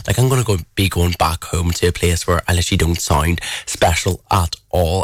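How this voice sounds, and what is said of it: Irish accent. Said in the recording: “my accent is still here. Like if you ask any person from England where I'm from, they'll 9 times out of 10 they will hit the nail on the head and they'll say Ireland.”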